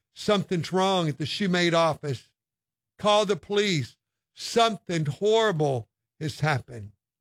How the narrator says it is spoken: She exclaimed

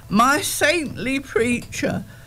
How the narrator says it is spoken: the leader cried

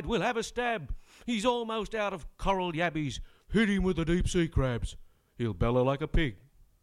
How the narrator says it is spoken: Fraser cried

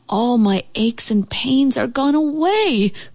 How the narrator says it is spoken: cried the old house

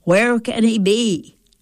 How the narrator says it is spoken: I'd ask loudly

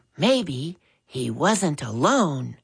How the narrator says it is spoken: he whispered, hoping Jeffrey wouldn't detect the fear that trembled in his voice

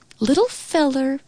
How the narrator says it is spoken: she cooed

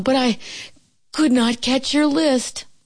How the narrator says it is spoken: gasped Frog

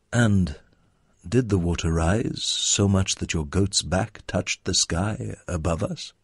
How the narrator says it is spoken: asked him calmly

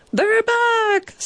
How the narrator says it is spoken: someone shouted

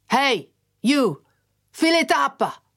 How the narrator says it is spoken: this bloke called out in a none too friendly tone

